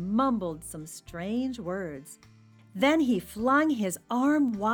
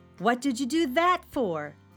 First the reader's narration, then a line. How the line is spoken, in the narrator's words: shouted Felix